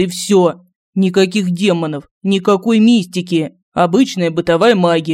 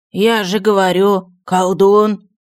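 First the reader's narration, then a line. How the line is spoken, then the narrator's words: Dejected monk. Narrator (Russian): уныло продолжил монах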